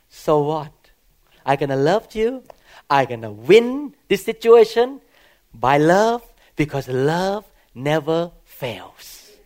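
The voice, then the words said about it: Non-native foreign English accent. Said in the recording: “I was very foreign. My accent was thicker than now. I improved a lot. Some people correct my accent”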